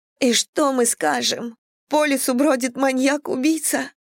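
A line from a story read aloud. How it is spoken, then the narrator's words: Sobbing. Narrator (Russian): всхлипнула Мэдисон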